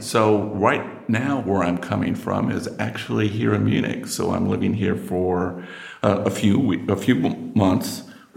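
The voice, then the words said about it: American accent. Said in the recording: “you can tell from my accent, I'm, I'm American.”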